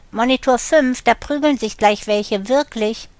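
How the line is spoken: Calling out. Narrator (German): ruft er

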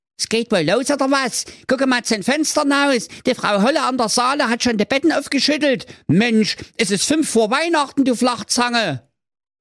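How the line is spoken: Calling out. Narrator (German): sein Bruder Jakob rief

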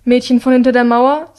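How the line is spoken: Said curtly. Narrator (German): sagt sie schroff

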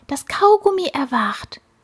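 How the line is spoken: Fly's frightened whisper. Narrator (German): flüsterte die Fliege erschrocken

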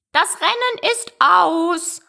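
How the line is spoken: Sudden call. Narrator (German): rief der Dodo plötzlich

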